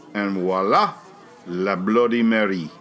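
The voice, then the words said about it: Bad put-on French accent. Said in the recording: “it's a terrible French accent. ... I've been drinking”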